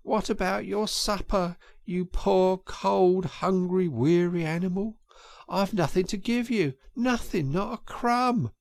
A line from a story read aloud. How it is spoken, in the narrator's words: he moaned